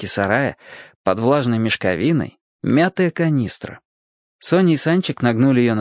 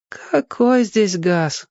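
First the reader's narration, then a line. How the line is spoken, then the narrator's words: Grown-up sigh. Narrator (Russian): по-взрослому вздохнула Соня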